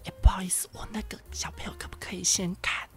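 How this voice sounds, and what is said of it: Loud breathy mock whisper. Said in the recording (Chinese): “小小声的讲话...他的小小声那个气音超级大声，他这样子...超大声的好不好”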